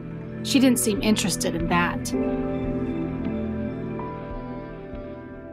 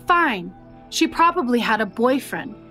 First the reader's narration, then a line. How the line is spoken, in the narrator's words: Tina suggested, her voice strained with annoyance